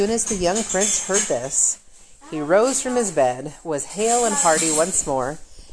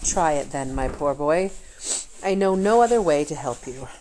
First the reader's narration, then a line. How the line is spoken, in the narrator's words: he said sadly and with deep misgivings